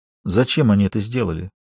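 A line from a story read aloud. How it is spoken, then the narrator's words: Quiet, stunned disbelief. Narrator (Russian): тихо спросила Маша, все еще не в силах поверить в то, что услышала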